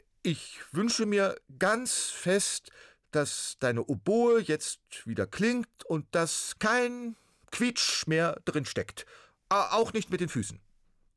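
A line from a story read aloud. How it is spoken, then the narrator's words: Loud and clear. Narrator (German): sagte er laut und deutlich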